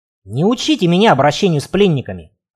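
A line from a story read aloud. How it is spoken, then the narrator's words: Snapping. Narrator (Russian): огрызнулся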